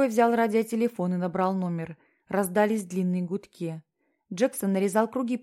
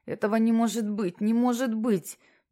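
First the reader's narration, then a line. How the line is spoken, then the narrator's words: Babbled. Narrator (Russian): пролепетал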